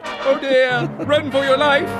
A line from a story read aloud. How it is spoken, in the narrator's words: Smith screams out